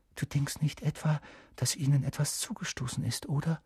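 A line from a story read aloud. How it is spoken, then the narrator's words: Whispered. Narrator (German): flüsterte Hermine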